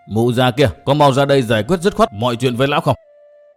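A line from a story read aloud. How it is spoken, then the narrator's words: Loud call indoors. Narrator (Vietnamese): Vân Hải Kiều Tử lớn tiếng nói vọng vào trong nhà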